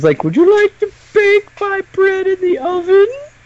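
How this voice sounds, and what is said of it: Goofy aristocratic Yoda-like voice. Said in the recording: “the guy does this really goofy voice where he sounds kind of like Yoda if he was an aristocrat... I don't do a good enough impression of it”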